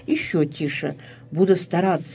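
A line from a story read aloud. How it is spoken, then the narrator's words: Very quiet. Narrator (Russian): произнес совсем тихо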